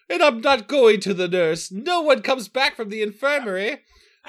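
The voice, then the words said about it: Congested voice, shifting mixed accents. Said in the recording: “in a plugged up voice ... I love the voice. It shifted from like French to Irish to Jamaican.”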